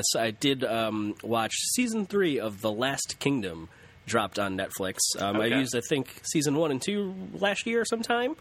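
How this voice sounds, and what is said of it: Nasal, congested voice. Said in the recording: “hear from my voice. I'm a little nasally sick again.”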